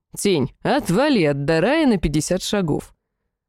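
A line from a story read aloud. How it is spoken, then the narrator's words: Calm command. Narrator (Russian): Сахарель спокойно приказал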